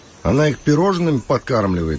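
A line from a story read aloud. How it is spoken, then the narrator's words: Snorting. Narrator (Russian): фыркнул Кирилл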